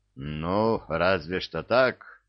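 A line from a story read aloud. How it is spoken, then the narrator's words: Grumbling. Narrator (Russian): Пробурчал капитан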